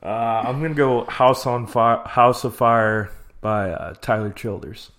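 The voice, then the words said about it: Country twang accent. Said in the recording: “I said it in a country tone ... It's a little country ... a little twang there”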